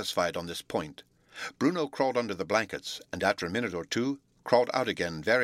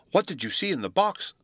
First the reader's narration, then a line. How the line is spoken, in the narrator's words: Sylvie eagerly inquired